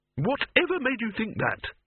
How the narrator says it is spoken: he snapped

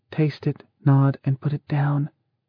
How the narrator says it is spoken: Lita said softly

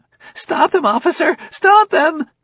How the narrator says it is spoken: The manager was shrieking

